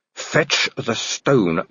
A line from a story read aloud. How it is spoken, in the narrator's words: growled Angua